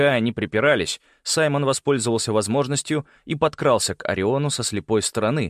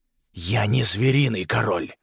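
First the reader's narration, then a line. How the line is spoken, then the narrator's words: Animal growl. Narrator (Russian): прорычал ягуар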